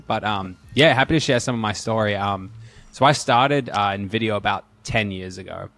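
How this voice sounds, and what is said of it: Australian accent. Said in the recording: “I think my accent might slowly come out ... I'm an Aussie, so slowly, hopefully, you'll hear a bit of my accent.”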